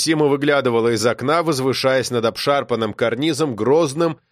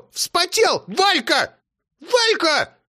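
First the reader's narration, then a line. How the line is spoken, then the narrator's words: Old woman yelling. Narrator (Russian): заорала баба Сима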